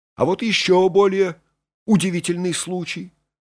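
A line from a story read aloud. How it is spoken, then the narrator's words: Exclamation. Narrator (Russian): воскликнул хирург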